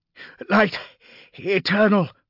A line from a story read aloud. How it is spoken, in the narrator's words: panted Epicles